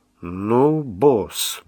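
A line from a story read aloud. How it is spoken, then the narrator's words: Driver's grumble. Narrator (Russian): буркнул водитель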